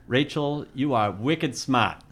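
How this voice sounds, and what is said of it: Put-on Boston accent. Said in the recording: “in my best Bostonian accent”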